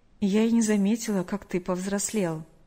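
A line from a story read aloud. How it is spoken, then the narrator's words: Slightly sad, smiling. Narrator (Russian): немного грустно улыбнулась она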